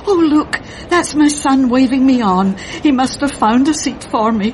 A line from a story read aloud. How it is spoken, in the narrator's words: she cried out